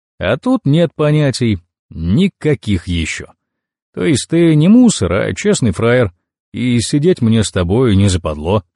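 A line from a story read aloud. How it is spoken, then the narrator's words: Laughing. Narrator (Russian): засмеялся Вагон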